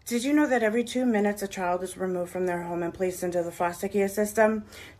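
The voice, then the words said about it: Boston accent. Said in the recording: “it's in that Boston accent, which makes it sound really cute.”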